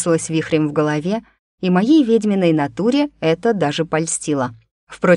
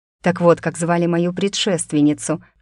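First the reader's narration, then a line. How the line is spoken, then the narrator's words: Inner snort. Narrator (Russian): хмыкнула я про себя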